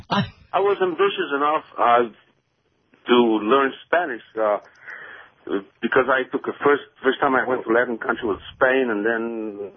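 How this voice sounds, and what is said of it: Slight Polish accent. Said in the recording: “I'm catching a slight accent. ... I'm Polish”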